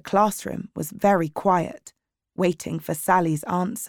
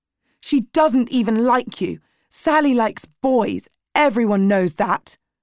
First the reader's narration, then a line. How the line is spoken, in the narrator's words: shouted back